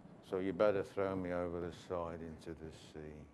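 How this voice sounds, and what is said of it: Gloomy Eeyore cartoon voice. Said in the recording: “That's my best Eeyore accent.”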